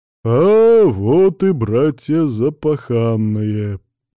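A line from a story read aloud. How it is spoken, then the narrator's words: Deep male bass. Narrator (Russian): пробасил мужчина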